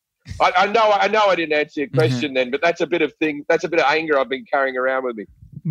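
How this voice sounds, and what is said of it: Australian accent. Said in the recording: “All I can be is an Australian bloke. And if they put you in a movie with this accent”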